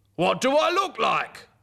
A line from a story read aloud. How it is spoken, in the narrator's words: called out